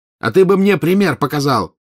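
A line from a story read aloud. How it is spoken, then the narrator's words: Angry shouted retort. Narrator (Russian): крикнул в ответ красный злой Маклаген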